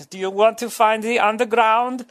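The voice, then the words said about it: Hacky generic foreign accent. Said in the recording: “that's my hacky foreign accent”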